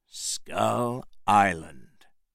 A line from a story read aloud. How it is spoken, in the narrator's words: Jack said quietly